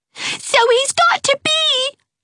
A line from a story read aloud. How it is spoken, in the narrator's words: screamed Geraldine